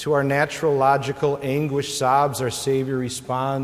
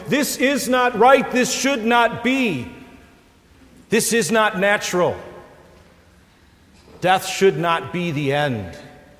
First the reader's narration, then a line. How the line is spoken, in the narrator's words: our hearts and our minds scream out to him